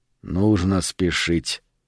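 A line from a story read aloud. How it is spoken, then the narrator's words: Quiet. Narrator (Russian): тихо сказал Сильвера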